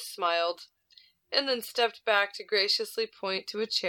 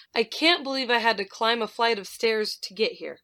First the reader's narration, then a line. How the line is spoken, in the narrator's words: breathlessly exclaimed